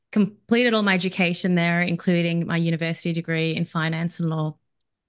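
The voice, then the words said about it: Australian accent. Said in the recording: “one of the first things people are curious about is my accent. ... I'm a born and raised in Australia. I'm Melbourne.”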